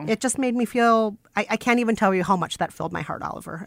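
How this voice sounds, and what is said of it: Teary, choked-up voice. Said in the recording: “I'm getting so clumped. Somebody give me a Kleenex. ... I'm getting teary again.”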